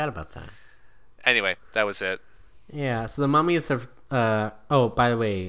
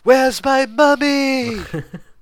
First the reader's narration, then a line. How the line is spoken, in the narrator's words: he screams